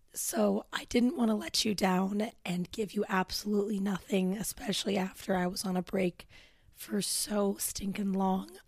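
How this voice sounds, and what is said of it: Hoarse, croaky voice. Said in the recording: “My voice is absolutely trashed right now... this croak, like quite literally me croaking”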